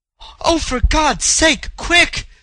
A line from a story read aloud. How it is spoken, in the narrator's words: she cried, pale with fear